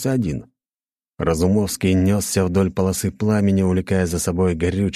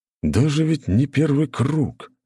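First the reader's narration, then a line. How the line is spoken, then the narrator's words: Shocked, breathless. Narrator (Russian): потрясенно выдохнул Калинин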